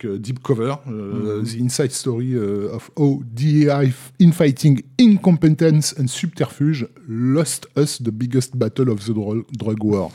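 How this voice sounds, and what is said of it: Heavily accented English pronunciation. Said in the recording (French): “ton accent anglais nous a perdus”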